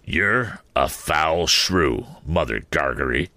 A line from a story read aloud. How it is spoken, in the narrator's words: growled the journeyman